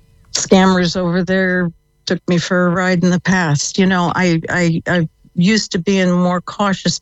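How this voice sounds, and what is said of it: American accent. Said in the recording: “If you can tell from the accent, yep. I came from the States.”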